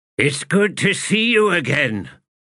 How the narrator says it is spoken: He shouted

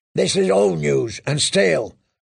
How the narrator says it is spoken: growled the shavepate

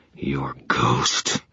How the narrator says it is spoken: he hissed

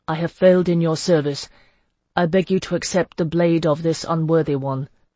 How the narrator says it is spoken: he said in his most impassive voice

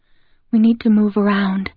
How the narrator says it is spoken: Emily whispers

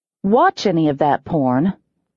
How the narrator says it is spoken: I growled

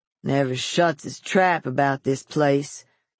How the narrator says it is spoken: the big boy grunted, drawing his arm across his nose as if to muffle his words

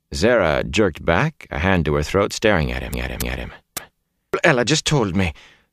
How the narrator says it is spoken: she said unsteadily

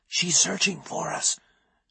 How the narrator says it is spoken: I whispered

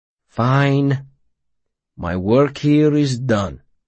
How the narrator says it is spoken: Will said gravely

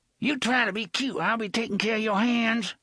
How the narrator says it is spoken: she said in her muffled voice

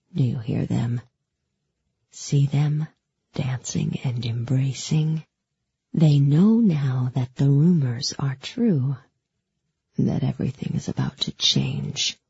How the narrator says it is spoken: The Darkling whispered

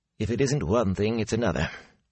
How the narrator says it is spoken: he muttered as he hurried from the room

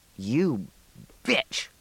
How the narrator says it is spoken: Gary snarled

